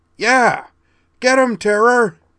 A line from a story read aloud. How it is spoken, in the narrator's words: cried